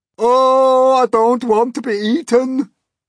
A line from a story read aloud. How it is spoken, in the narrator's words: wailed the earthworm